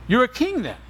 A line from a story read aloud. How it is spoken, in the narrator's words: said Pilate